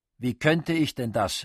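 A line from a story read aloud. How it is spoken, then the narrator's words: Exclaimed. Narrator (German): rief er aus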